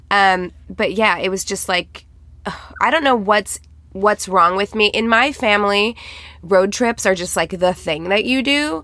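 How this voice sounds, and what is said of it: Tired, strained voice. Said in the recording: “I'm so tired and run down. You can probably hear it in my voice. I'm straining a little bit.”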